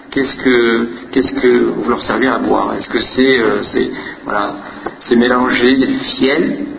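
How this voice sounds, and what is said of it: French accent from France. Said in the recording (French): “peut-être vous avez reconnu que mon accent m'a trahi. Je suis de la France.”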